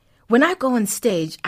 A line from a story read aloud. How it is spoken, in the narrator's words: I shout